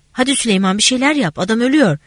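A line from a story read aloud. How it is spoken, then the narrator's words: Shout. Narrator (Turkish): diye bağırdım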